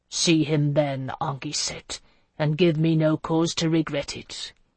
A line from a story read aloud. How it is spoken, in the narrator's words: he growled